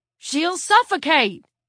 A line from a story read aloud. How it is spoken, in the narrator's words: he yelled